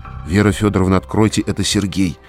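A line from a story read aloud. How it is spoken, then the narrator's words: Barely audible, behind door. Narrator (Russian): еле слышно ответили за дверью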